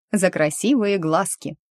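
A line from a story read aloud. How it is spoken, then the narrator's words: Cheerful interjection. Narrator (Russian): вставила радостно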